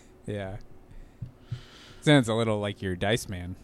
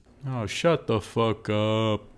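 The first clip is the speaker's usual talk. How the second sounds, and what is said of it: Imitates another person's voice. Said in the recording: “That's my impression of your dad.”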